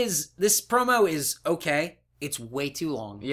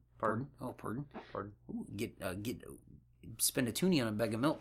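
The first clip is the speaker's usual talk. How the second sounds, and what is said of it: Put-on Canadian accent. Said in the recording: “my Canadian accent.”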